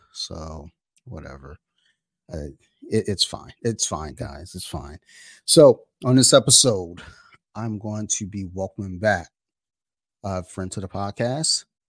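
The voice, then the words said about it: Low, subdued, dimmed voice. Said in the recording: “my voice is a little dimmed and down right now”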